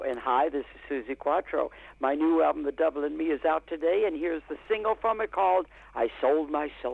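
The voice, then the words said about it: Radio DJ announcer voice. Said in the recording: “my best DJ voice”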